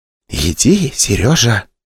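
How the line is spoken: Whisper. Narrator (Russian): шепнула Вера

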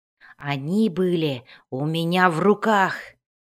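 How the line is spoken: Hissed, pirate. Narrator (Russian): прошипел пират

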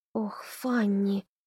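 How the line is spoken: Whisper. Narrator (Russian): прошептала Одри

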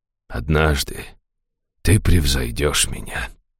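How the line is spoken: Quiet. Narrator (Russian): тихо сказал он

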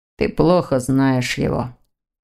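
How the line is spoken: Grumbling. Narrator (Russian): проворчал молодой человек

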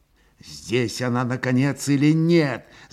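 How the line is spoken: Angry inner thought. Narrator (Russian): злобно закипело у него в сердце

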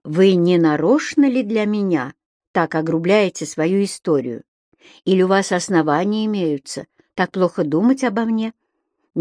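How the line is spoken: Gentle reproach, female. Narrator (Russian): Мягко попрекнула Доломанова

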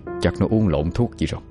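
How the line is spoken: Muttering. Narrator (Vietnamese): chỉ đành lẩm bẩm một câu

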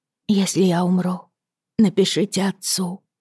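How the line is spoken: Whispered. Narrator (Russian): прошептала Лизи

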